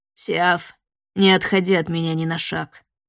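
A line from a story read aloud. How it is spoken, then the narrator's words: Growling through clenched teeth. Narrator (Russian): прорычал он сквозь сжатые зубы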